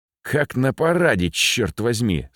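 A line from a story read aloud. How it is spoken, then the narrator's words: Cursing through gritted teeth. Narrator (Russian): сквозь зубы выругался местный чекист, как и Ракитин, капитан ГБ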